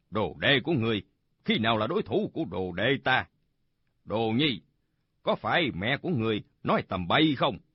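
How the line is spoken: Smiling. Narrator (Vietnamese): Bạch Tự Tại mỉm cười nói

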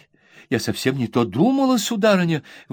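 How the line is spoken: Old woman exclaiming. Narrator (Russian): воскликнула бабушка

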